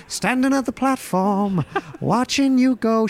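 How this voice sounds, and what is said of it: Singing in a put-on Irish accent. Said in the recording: “Why are you singing it in that Irish accent?”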